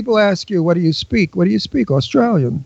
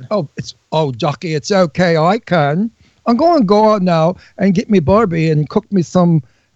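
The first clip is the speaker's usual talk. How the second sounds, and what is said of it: Attempted Australian accent, sounds English. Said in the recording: “if you can sound Australian ... it sounds more like an Englishman ... Englishman from New York ... an elegant Brooklyn accent”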